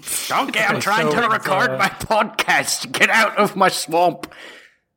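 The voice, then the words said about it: Weird Scottish cartoon-ogre voice. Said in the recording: “It's like weird Scottish ... I can't do an actual ... Scottish ... Whatever ... Shrek was doing for most of that movie”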